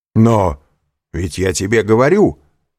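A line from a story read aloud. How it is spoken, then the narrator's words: Exclaimed. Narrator (Russian): воскликнул Данглар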